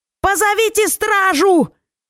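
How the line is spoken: Screaming. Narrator (Russian): завопила

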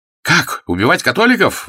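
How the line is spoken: Exclaiming. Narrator (Russian): воскликнул товарищ убитого

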